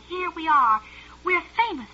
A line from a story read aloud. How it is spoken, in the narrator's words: he cried